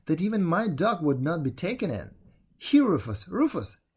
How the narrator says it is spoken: exclaimed at last

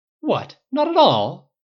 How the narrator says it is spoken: Yaskier says indignantly

